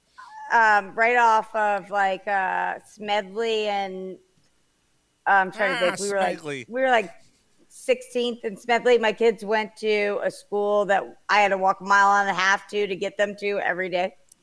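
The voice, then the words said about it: Northeast Philadelphia accent. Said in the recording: “you don't sound like you're from the South ... You sound like a girl that we grew up with in Mayfair ... It's got the northeast ... she's got the northeast Philly accent”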